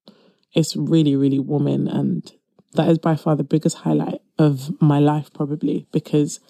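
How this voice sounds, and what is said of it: British accent. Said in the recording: “my accent clearly tells that I am British. I'm British Nigerian.”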